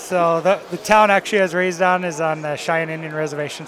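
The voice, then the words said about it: South Dakota accent, Canadian-like. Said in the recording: “If you can't tell from the accent. ... is that a Canadian or Minnesotan, Wisconsin? ... Canada Light. ... a little bit of that probably, and then the South Dakota accent.”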